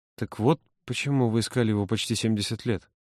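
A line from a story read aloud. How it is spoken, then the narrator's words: Muttered. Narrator (Russian): пробормотал Володя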